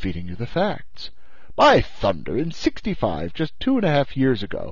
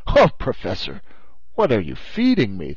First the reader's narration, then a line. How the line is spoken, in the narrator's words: the Canadian answered in a tolerably skeptical tone